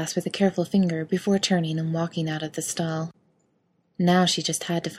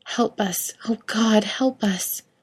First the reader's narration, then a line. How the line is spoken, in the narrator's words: she cried in horror at what she had wrought